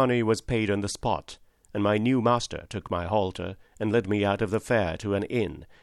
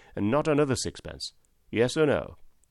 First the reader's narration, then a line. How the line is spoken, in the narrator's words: said my friend, in a very decided tone